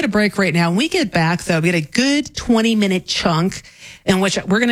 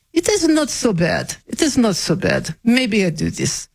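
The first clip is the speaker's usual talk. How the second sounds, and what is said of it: Put-on Russian accent. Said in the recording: “I'll break out my Russian accent.”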